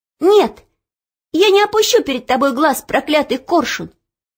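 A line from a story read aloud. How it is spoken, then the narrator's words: Sudden shout. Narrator (Russian): вдруг крикнула она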